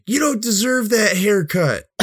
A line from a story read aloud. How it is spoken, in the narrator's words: did some kid yell at him